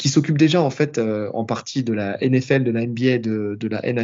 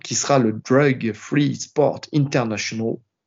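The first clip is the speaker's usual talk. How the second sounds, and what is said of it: Put-on accent on English name. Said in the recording (French): “J'ai pris mon meilleur accent.”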